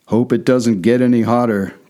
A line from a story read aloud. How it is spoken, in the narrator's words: growled the latter